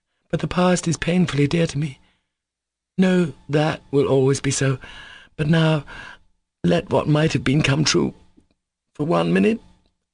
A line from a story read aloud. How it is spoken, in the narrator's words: she faltered with a drawn smile